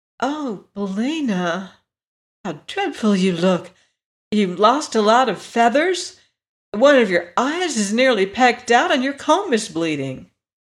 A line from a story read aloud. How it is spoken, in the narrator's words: The girl exclaimed